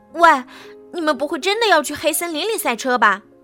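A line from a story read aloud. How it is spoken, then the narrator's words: Sudden shouting. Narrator (Chinese): 板牙突然对选手们叫嚷道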